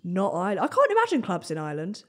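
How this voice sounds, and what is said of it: Deep, bad attempt at Irish accent. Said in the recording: “That wasn't a good That was meant to be Irish ... You put on a deep voice.”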